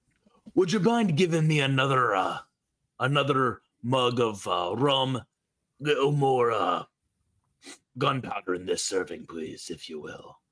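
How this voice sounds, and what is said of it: Gravelly, slightly upper-crust character voice. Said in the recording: “tries to remember what Fasta's accent actually sounds like ... That's pretty close ... that wasn't far off ... Gravelly, but a little upper crusty”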